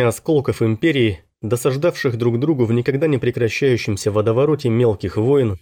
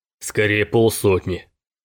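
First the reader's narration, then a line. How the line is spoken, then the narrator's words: Grumbled. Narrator (Russian): проворчал Райк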